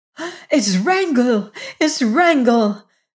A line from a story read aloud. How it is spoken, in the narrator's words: cried Jane Witherstein